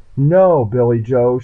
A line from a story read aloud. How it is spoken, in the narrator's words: she cried